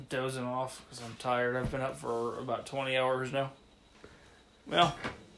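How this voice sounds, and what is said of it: Tired, drowsy, slightly slurred speech. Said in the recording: “I'm dozing in my chair while I'm talking. I'm sure you could probably tell. ... I'm slurring words a bit.”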